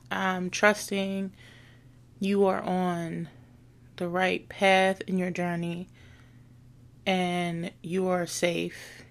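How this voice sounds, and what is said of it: Sad, subdued voice. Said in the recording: “why she sounds so sad? I'm sad”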